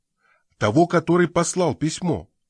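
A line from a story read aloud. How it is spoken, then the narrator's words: Somewhat impatient exclamation. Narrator (Russian): воскликнул Синклер немного нетерпеливо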